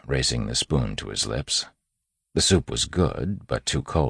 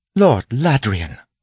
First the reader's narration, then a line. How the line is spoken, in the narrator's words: Steris exclaimed